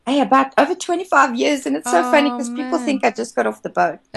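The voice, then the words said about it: South African accent. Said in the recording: “we can hear that you're South African ... I'm glad to hear that you're still keeping your accent.”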